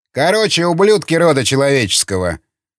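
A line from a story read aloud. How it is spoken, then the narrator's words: Loud. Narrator (Russian): стал громко говорить Чернов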